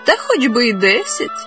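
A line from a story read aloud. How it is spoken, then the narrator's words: Young woman laughing. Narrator (Ukrainian): засміялась молода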